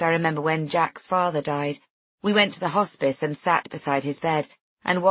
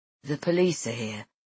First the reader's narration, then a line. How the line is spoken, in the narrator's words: he says, his voice full of concern